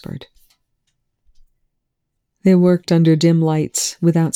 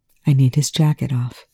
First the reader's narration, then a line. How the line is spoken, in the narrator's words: TJ murmured